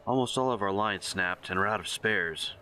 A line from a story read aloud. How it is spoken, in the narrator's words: she growls